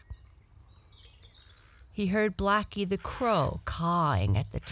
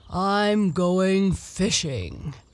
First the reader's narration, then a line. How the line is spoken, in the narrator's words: said he in his deep, grumbly, rumbly voice